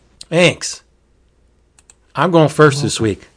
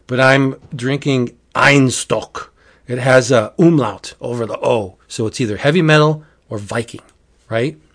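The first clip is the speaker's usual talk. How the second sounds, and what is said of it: Weak put-on Viking accent. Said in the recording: “I'm not used to doing Viking. My Viking accent isn't very good.”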